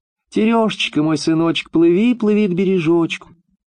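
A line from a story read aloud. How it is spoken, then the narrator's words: Mother's thin high call. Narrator (Russian): мать, стала звать сына тоненьким голоском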